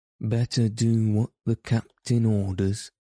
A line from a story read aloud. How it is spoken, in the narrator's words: said Starkey nervously